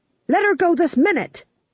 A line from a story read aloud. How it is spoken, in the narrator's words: he shouted